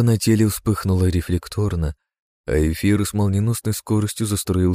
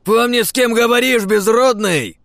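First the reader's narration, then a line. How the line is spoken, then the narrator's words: Sudden fierce shout. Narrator (Russian): Вдруг рявкнул свирепо один из телохранителей архидемона, переходя на крик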